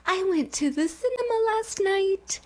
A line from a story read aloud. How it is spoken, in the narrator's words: said in the dog voice